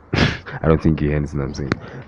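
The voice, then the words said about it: Deliberately deep voice. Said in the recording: “deep voice. Okay, I'll use my deep voice.”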